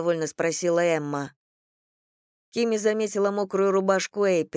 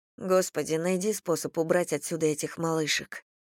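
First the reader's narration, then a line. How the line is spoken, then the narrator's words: Muttering. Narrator (Russian): пробормотала я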